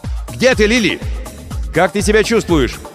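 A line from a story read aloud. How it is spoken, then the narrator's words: Shouted. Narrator (Russian): закричал в направлении корабля Крисмас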